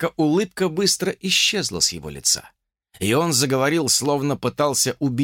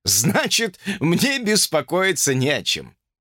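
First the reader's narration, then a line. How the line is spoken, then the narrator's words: Confident, then laughing. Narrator (Russian): уже уверенно сказал Джордж и рассмеялся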